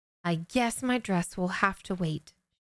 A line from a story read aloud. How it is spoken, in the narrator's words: said with a sigh